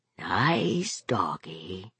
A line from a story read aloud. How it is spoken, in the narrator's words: he whispered huskily